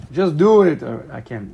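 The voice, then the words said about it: Poorly done put-on accent. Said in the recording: “That was a horrible accent. ... Like an African accent.”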